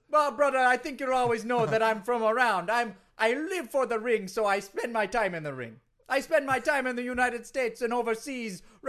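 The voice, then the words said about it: Foreign-sounding accent. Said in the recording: “you sound different ... do you have a cold? ... People are always talking about my accent. ... You sound like you're from someplace else.”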